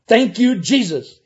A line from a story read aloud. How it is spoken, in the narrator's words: he shouted